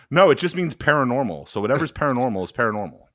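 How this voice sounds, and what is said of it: Impression of Sanders. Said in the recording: “my Sanders impression”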